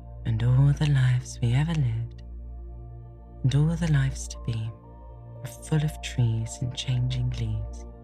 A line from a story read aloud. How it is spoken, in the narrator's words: she murmured